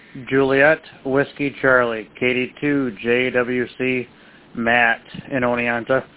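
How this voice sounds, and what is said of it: Hoarse voice. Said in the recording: “My voices became a little hoarse all of a sudden.”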